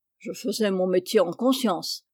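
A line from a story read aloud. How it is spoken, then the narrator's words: Forester grumbling. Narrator (French): grommela le forestier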